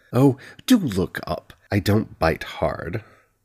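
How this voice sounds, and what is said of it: Posh British accent. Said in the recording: “an unfamiliar voice with a posh Britannian accent”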